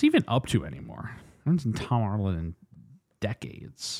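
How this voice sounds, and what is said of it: Usual voice. Nothing is said of it.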